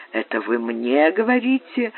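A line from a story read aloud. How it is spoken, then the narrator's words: Blind man, soft question. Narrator (Russian): Слепой спросил Франка мягким тоном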